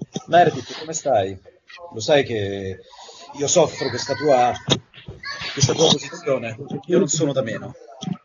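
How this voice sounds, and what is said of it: Dubbed TV doctor character voice. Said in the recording (Italian): “fare la, voce, la voce del dottor De Luca di Grey's Anatomy”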